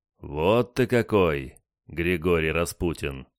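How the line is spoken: Surprised, drawn out. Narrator (Russian): протянул удивленный матрос

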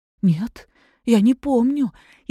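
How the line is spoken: Frightened. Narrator (Russian): испуганно ответила Анна Николаевна

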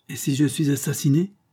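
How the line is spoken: Exclaimed. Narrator (French): s'exclama M

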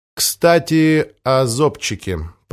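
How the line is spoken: Drawled. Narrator (Russian): протянул Помпилио

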